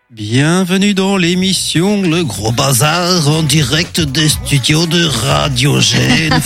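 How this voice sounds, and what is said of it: Put-on Bruges accent. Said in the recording (French): “C'est quoi cet accent? ... Mais c'est quoi cet accent? ... C'est l'accent de Bruges.”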